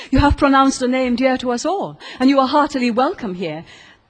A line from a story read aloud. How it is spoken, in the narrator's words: exclaimed the old Marquis